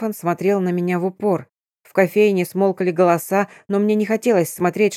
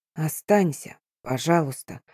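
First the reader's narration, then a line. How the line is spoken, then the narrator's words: Barely voiced whisper. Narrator (Russian): одними губами прошептал он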